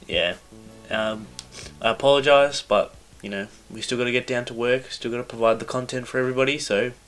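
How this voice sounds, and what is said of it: Sick, hard-to-understand voice. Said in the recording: “My voice may be hard to understand today. I'm quite sick.”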